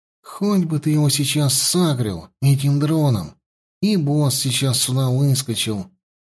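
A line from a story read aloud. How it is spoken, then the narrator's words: Sighing. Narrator (Russian): вздохнул Петька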